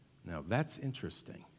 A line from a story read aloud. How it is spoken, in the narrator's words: I heard him whisper to himself